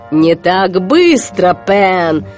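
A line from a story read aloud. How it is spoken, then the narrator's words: Growling. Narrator (Russian): прорычал Крюк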